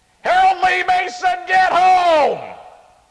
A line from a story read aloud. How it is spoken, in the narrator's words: yell